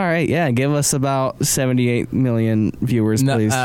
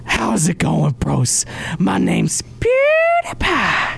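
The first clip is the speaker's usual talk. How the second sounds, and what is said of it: Imitates another person's voice. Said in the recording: “my best PewDiePie impression”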